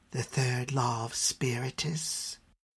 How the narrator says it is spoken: she whispered

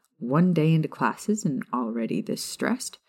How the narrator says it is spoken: Remus chuckled to himself

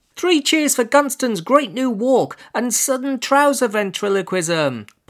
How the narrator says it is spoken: piped up Eleanor Thant, a girl

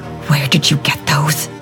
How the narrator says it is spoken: hissed

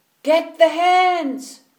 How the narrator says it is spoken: the farmer shouted

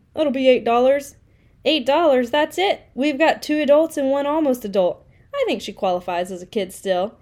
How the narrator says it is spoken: he said with a chuckle

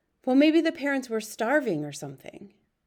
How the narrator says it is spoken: Pong sighed and said

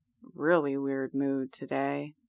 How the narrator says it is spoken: Colin murmurs again

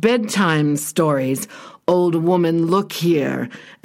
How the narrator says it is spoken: the monster snarled

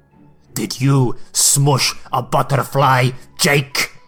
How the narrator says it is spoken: Emil screamed with a type of fury

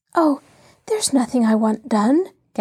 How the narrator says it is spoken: gasped Shirley

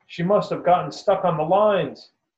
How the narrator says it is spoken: The ranger shouts

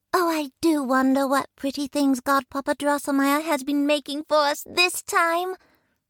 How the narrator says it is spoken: Marie exclaimed

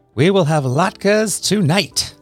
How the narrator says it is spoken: shouted

